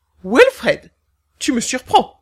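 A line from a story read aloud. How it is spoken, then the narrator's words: King exclaiming. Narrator (French): s'exclama le roi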